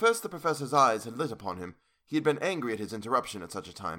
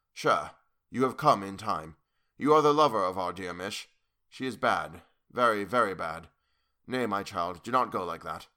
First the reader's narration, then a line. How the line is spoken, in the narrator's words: Without a pause, he said gravely